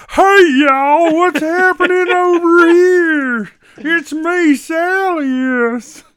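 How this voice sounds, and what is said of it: Silly character voice. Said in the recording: “do a silly voice?”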